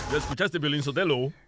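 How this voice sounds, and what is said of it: Exaggerated radio announcer voice. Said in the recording (Spanish): “¿Y por qué hablas así? ... esa era mi voz de locutor”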